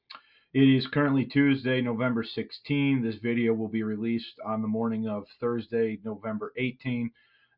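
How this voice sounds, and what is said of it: Voice affected by a cold. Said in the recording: “I do have a bit of a cold. I don't know if you can tell by the way my voice sounds”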